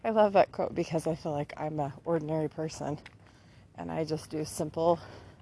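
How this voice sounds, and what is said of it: Slightly out of breath. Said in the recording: “sorry, I'm a little bit out of breath.”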